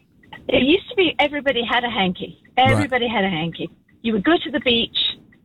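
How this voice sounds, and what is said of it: British accent. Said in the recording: “you're from the UK. ... With this accent, yes.”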